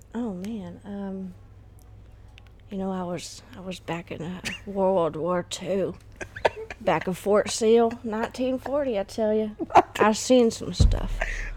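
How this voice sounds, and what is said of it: Old man character voice. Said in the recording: “give me your best old man voice. Like your old, like a an impression of an old dude.”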